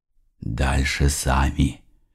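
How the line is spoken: Whispered. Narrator (Russian): прошептал

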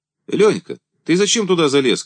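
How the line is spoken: Shout. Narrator (Russian): крикнул

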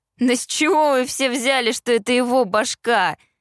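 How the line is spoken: Laughing. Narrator (Russian): Рассмеялся Кит

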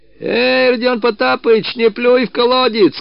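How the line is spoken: Shouting after someone. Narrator (Russian): кричал ему вслед Мыльников

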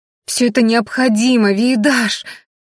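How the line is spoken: Desperate shout. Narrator (Russian): в отчаянии закричала Рена

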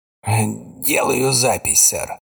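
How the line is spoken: Muttered. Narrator (Russian): пробормотал он

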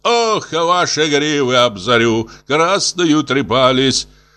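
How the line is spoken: Shouting from a tower. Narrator (Russian): он кричал с вышки

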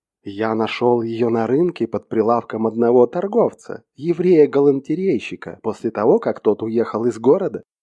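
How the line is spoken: Plain. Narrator (Russian): ответил он

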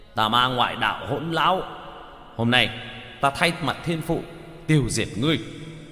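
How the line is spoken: Roaring. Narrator (Vietnamese): Bạch Hổ gầm lên

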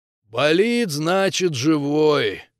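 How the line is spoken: Strange drawl. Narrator (Russian): как-то странно протянул Зубарь

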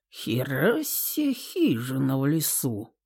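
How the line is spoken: Quiet mutter. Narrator (Russian): тихонько пробормотал Гром у нас с Инной за спиной

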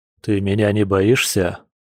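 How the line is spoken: Hoarse double low bestial voice. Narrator (Russian): Прохрипел оборотень сразу в два низких голоса, будто зверь внутри него тоже мог говорить

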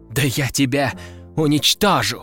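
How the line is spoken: Hissing. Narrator (Russian): прошипел принц

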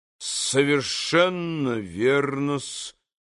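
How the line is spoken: Quiet and reasoned. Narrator (Russian): тихо и рассудительно проговорил Смердюков

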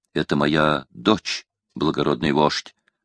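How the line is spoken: Plain. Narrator (Russian): ответил Павийон

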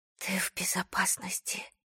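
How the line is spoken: Self-reassuring whisper. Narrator (Russian): прошептала самой себе, как будто если произнести эти слова вслух, они окажутся правдой

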